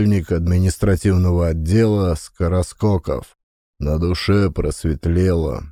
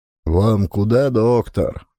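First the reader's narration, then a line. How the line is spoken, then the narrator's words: Lazy question. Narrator (Russian): лениво спросил сидевший в дежурной комнате комендант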